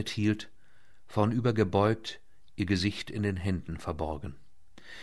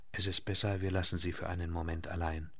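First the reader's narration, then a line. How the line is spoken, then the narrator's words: Murmured. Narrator (German): murmelte sie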